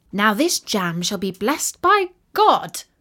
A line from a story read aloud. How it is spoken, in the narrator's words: cried the little tailor